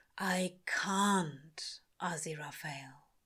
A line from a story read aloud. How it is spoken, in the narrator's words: he says quietly